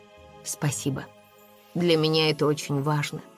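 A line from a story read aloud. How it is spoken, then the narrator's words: Quiet. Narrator (Russian): тихо произнес он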